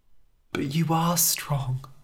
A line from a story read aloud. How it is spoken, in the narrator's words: whispered Zelda